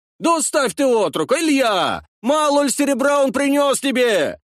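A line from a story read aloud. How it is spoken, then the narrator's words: Shouting. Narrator (Russian): Кричали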